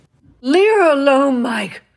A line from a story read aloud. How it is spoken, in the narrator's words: slurred her mother, not quite as drunk as he was